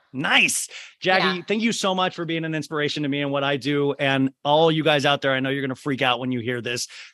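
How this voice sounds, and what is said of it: Very fast excited speech. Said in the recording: “Sorry for talking so fast, but I was just so excited”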